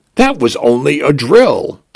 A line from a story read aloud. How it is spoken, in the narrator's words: I announced cheerfully